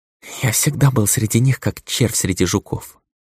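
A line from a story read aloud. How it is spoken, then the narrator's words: Barely audible monk. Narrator (Russian): едва слышно произнес монах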